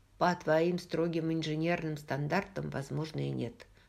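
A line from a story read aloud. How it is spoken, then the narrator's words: Plain. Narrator (Russian): сказал Роджер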